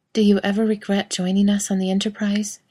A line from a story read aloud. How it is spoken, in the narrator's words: she asked